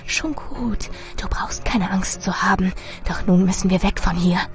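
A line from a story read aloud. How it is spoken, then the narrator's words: Hissed. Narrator (German): Marilyn zischte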